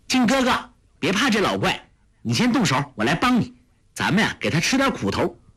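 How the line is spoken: Calling out. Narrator (Chinese): 就叫道

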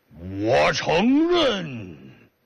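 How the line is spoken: Booming bass roar. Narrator (Chinese): 这个人呢还没太使劲吼啊，少林有名的狮子吼啊，像大低音炮一样

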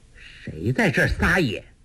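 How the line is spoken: Cold voice. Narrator (Chinese): 一个冷冷的声音说道

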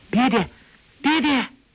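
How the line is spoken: Shouting. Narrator (Chinese): 黄蓉大叫

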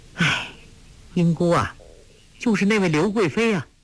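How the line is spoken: Sighing. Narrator (Chinese): 黄蓉叹道

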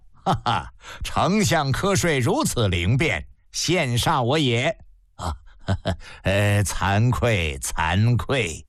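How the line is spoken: Hearty laughter. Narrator (Chinese): 皇帝一阵哈哈大笑

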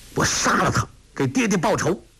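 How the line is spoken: Angry. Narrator (Chinese): 闪出怒光

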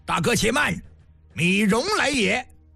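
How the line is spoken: Loud shout. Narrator (Chinese): 此时寝宫一声高喊

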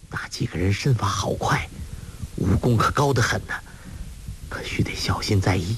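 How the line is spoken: Grave, low voice. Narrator (Chinese): 尹志平却脸色郑重，低声说

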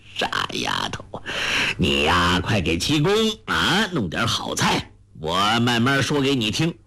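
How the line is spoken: Chuckling. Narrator (Chinese): 洪七公呵呵笑道

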